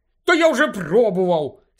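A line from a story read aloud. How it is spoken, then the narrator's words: Angry snap. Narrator (Ukrainian): сердито огризнувся Гаррі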